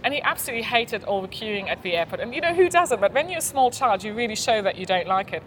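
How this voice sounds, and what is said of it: German speaker with British accent. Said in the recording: “she's German, but she has a British accent. And it's this very weird combination ... I don't know whether I'm listening to a German accent or an English accent ... bit of both”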